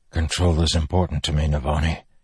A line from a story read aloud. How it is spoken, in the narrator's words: he said, his voice hoarse